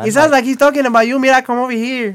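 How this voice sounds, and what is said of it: Put-on Colombian Latina accent. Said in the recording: “You literally did the accent ... she was like Colombian”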